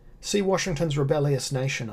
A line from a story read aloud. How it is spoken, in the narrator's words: I said